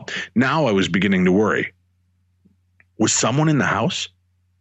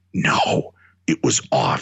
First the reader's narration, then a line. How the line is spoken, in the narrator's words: halfway whispered